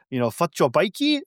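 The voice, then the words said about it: Weak put-on South African accent. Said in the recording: “I can't do a great South African accent”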